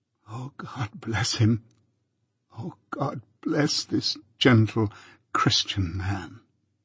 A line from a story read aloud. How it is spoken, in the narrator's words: as my extreme weakness prevented me from getting up and going to him, I lay there penitently whispering